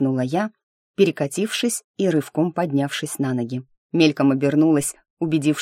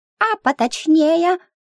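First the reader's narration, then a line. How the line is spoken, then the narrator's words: Squeaking. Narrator (Russian): пискнул братец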